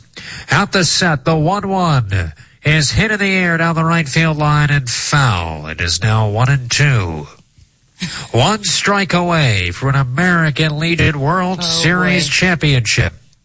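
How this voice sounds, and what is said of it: Old-timey radio announcer voice. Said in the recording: “I'm going to do an old-timey radio voice.”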